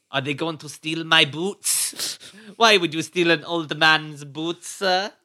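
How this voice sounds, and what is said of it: Put-on Spanish accent. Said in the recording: “your Spanish accent is fire, honestly”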